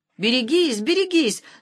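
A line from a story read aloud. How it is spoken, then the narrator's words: Frantic piercing yell. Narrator (Russian): нестерпимым голосом завопил ему в самое ухо возница, обезумевший от жары и сутолки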